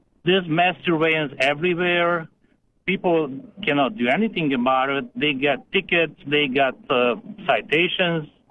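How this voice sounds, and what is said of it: Eastern European accent. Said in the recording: “Probably you hear from my accent, I'm from Eastern Europe”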